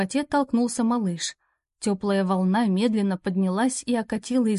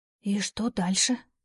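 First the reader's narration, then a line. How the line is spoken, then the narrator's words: Cautious whisper. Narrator (Russian): спросила я шепотом, помня о том, как далеко разносятся звуки в каменном колодце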